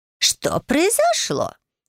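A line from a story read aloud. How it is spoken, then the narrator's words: Startled exclamation. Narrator (Russian): воскликнула госпожа Томас, для которой вспышка света стала полной неожиданностью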